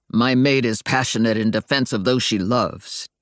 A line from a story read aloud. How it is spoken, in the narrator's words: Daryl growled defensively